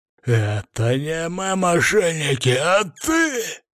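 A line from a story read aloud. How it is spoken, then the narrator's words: Hoarse wheezing. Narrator (Russian): захрипел граф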